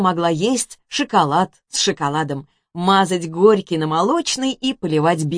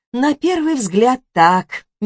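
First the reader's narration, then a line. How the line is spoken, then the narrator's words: Uncertain drawl. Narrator (Russian): неуверенно протянула Карина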